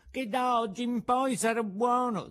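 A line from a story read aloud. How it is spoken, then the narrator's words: Puppet sobbing. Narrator (Italian): disse il burattino singhiozzando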